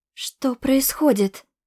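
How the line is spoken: Breathed out. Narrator (Russian): выдохнула я

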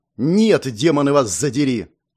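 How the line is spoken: Snapping. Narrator (Russian): Огрызнулся я

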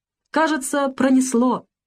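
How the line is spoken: Relieved shout. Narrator (Russian): облегченно выкрикнул Бакрадзе

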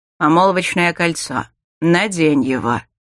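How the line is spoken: Through gritted teeth. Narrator (Russian): Сквозь зубы процедил брюнет

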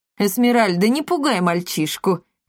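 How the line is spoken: Laughing. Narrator (Russian): рассмеялся господин Монпансье

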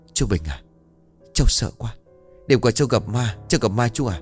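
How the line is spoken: Trembling. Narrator (Vietnamese): Gã run rẩy nói

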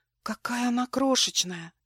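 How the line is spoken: Whispered. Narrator (Russian): прошептала

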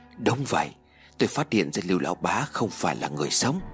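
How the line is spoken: Quiet, low voice. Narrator (Vietnamese): Lê Minh mới nhìn tên béo gật đầu nhỏ giọng nói

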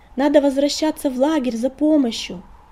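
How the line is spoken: Cat's shout. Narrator (Russian): крикнула кошка

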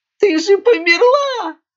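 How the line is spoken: Panicked shriek. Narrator (Russian): с паникой в голосе взвизгнул Смирненок

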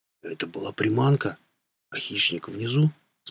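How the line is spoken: Quiet question. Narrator (Russian): спросил он тихим голосом

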